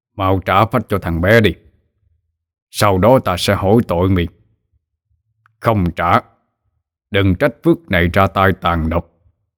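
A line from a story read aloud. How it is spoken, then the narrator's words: Stern voice. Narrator (Vietnamese): thầy Phước mới cất tiếng nghiêm nghị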